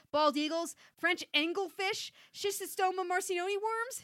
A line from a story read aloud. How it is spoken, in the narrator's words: she yelled